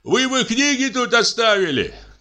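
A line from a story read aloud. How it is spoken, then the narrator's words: Calling after someone. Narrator (Russian): крикнул ему вслед Кузнецов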